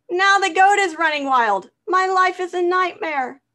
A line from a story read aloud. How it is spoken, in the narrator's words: screamed